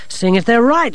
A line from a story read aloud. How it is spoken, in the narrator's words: she snapped